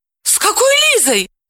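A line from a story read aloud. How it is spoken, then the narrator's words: Shout. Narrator (Russian): закричала она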